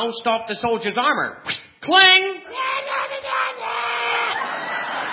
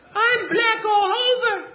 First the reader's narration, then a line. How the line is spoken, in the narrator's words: cried Goody Proctor